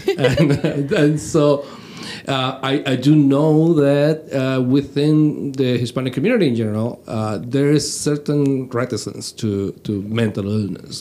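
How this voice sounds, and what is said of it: Venezuelan accent in English. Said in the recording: “I'm Venezuelan. This is why I have this southern accent”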